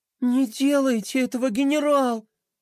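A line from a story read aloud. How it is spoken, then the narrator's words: Pleading. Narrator (Russian): взмолилась она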